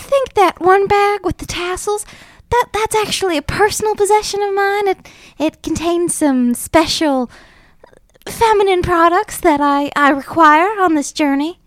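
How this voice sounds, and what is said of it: Put-on fantasy regional accent. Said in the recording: “affect my best accent ... I affect my best Dondalorian accent that I know of”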